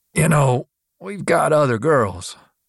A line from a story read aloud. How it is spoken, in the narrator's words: the bartender leaned in and croaked